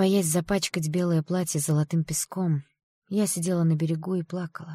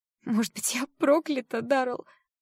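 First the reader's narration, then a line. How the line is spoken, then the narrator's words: Through tears. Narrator (Russian): спросила я сквозь слезы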